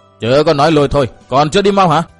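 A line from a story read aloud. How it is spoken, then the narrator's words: Sharp bark. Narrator (Vietnamese): Chu Bàn Tử quát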